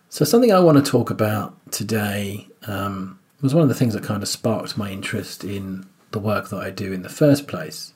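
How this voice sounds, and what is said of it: Weak, fading voice. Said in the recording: “My voice is drifting in and out ... if I cough or disappear ... my voice kind of gets weaker and weaker.”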